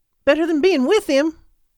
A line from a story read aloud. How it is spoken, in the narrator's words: Holly snapped